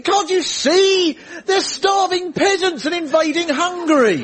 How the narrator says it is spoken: All their mates were screaming

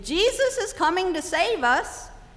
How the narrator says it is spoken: they're screaming

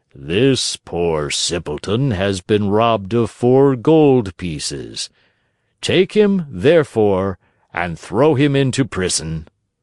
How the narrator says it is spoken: the magistrate said in a very solemn voice

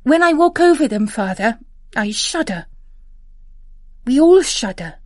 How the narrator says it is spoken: The housekeeper had said to him, her face averted, her voice cracking with the strength of her sentiments

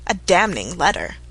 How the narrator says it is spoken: came in the dry tones which Q seemed to think fit to adopt on this occasion

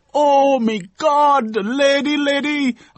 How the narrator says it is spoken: a woman shouted out

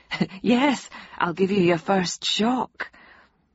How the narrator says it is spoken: the day nurse, with the cheerful laugh that could be heard sometimes down the corridor outside, answered

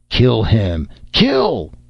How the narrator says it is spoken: the Hertug sputtered

